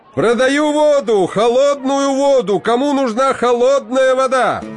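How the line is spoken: Shouting street vendor. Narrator (Russian): Машкоп кричал

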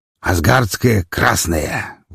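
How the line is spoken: Breathed out. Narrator (Russian): выдохнул Олаф

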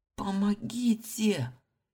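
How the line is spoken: Hoarse, desperate cry. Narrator (Russian): прохрипела я, сама не зная, кого призываю

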